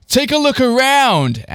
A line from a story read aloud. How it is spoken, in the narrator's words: Andy shouted